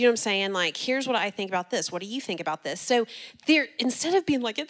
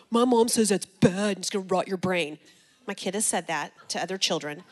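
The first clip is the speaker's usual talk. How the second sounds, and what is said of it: Imitates a child's voice. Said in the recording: “That was actually a really good impression of Jackson.”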